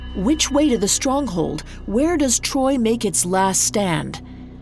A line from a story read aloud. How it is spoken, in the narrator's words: Aeneas called out to him